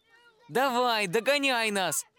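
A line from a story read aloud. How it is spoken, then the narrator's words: Shouting young hare. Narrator (Russian): закричал старший зайчонок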